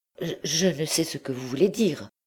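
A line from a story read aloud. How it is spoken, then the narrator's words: Stammered. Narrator (French): balbutia Blétry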